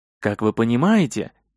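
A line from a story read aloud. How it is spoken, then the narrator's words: Quiet speech. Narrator (Russian): тихо говорил Тристис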